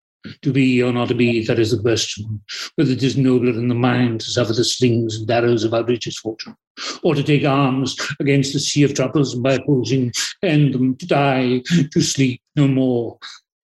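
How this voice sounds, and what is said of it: Richard Burton impression. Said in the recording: “you're a bit of a mimic, aren't you? ... I just do Richard Burton.”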